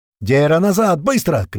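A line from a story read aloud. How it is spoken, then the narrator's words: Shouted into radio. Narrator (Russian): крикнул в рацию Апрель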